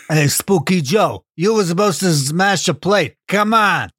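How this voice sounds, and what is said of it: Gangster-style poltergeist impression. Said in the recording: “It's a Scorsese film... That's my impression of a poltergeist... my lack of knowledge of A, gangsters, and B, poltergeists”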